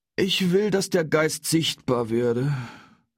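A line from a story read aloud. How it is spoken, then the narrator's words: Groaning. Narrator (German): stöhnte Heinrich Lippenknabe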